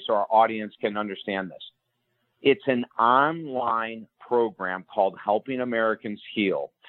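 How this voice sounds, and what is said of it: Speaking very slowly and deliberately. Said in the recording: “say this very slowly”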